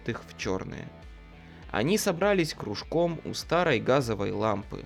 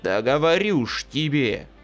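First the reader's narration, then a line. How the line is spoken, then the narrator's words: Growling. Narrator (Russian): рычал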